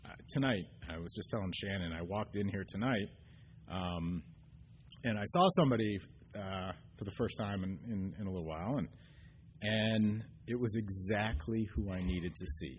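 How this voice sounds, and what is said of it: Choked up, emotional voice. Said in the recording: “I'm getting choked up”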